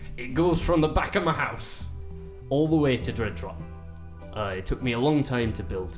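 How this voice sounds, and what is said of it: Weird old dwarf character voice. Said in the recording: “My accent has gotten a bit weird because I've lived in a human town for a good part of my life ... He's got a weird voice ... Such a weird voice.”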